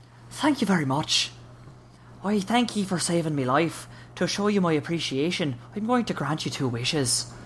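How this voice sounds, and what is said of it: Put-on Irish accent. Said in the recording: “thanks him in an Irish accent”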